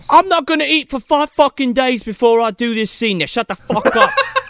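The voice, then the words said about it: Imitated British accent. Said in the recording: “That's the accent of it. He is very fucking British.”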